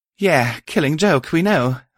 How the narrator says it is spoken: Violet breathed

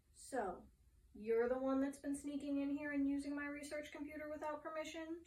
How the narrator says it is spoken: asked firmly

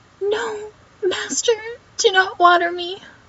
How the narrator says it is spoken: The plant cried out

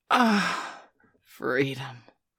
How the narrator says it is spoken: she sighed

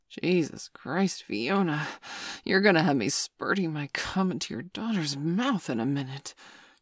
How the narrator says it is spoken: John gasped

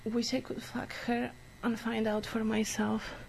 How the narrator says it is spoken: the driver says, letting out a bitter laugh

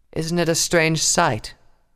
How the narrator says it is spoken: Clover said calmly

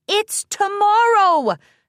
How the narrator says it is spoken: Twilight shouted

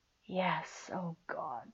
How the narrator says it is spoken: he whispered

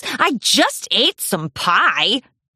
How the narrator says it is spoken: He grumbled

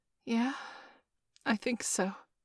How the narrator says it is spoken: I replied hesitantly

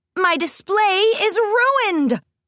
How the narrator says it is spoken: Plot Twist cried

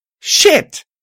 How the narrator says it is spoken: I exclaimed

